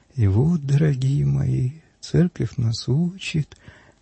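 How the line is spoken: Slow, measured, quiet. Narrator (Russian): говорит отец Нестор, я продолжу размеренно, неторопливо, тихим голосом

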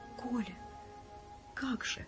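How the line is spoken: Timid question. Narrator (Russian): робко уже спросила Раиса Андреевна

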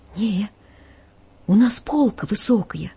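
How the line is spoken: Fearful, trembling voice. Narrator (Russian): Боясь поднять глаза на священника, я дрожащим голосом отвечаю

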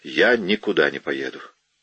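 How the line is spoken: Sudden sharp. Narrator (Russian): Капитан Феллоус вдруг резко сказал

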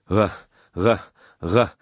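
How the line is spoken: Swelling into a roar. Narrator (Russian): Перешло в выступленный рев

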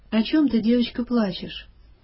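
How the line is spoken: Old man, gentle question. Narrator (Russian): седой старичок ласково спросил

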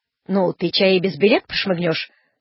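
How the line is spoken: Stern. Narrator (Russian): строго сказал дядин приказчик

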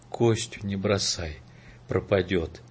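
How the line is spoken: Whisper. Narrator (Russian): Прошептала

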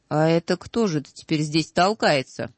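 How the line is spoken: Yelling at full volume. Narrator (Russian): Тогда Гек завопил, что было мочи

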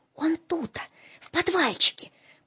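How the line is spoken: Secretive whisper. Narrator (Russian): потаенным шепотом объяснял Филиппка

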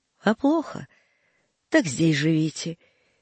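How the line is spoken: Said without hesitation. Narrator (Russian): сказал, не раздумывая

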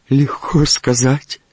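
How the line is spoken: Tearful old woman replying. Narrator (Russian): отозвалась сквозь слезы прабабушка

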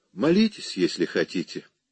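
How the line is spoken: Patronizing tone. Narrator (Russian): покровительственным тоном сказала она

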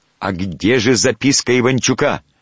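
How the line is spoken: Shouted. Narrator (Russian): Варламов крикнул

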